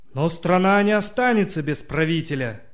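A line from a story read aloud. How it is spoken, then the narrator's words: Ruler shouting, then coughing. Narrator (Russian): крикнул повелитель, и тут же раскашлялся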